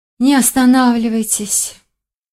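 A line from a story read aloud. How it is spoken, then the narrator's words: Languid sigh. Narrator (Russian): томно вздохнули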